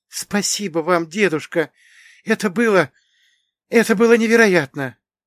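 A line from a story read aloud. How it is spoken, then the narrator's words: Breathless genuine delight. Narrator (Russian): выдохнула она, и в ее голосе звенел неподдельный восторг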